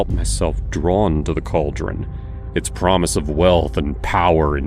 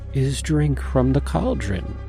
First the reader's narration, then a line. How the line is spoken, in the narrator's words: Hawthorne continued, her voice hypnotic